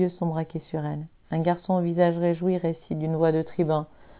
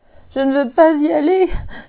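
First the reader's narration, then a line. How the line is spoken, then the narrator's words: Sobbing. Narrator (French): se met à sangloter Adélie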